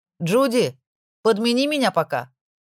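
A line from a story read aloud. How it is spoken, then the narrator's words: Shout. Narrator (Russian): крикнула Маргарет официантке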